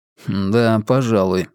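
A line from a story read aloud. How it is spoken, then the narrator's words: Smirking grunt. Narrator (Russian): хмыкнул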